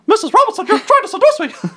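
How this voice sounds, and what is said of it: Donald Duck cartoon voice. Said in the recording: “you had to do a voice... Donald Duck... What's an impersonation you can do that you could say that line?”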